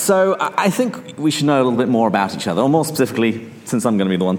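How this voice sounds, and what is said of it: English accent. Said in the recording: “my weird accent ... where I came from other than just England”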